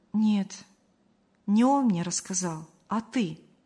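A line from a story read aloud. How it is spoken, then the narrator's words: Calm. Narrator (Russian): спокойно сообщила Мария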